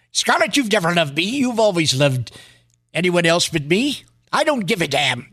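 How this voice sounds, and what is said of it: Clark Gable impression. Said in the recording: “That was my impression of Clark Gable.”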